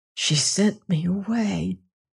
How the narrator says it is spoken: whispered

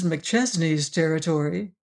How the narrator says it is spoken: He asked quietly

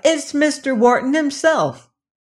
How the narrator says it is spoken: she cried

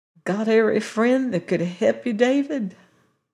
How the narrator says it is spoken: The old lady with a mist in her eyes and a quaver in her voice asked softly

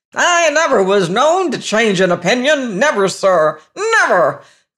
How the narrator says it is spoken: cried the testy voice

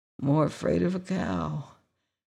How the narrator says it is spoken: the harvester was muttering in a sleepy chuckle

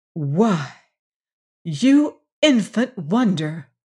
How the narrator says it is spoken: exclaimed Emma McChesney

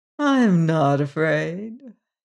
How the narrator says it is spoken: she drawled, a wicked little glint in her blue eyes

